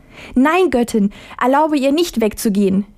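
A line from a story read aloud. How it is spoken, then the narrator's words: Mother pleading cry. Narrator (German): rief die Mutter beschwörend aus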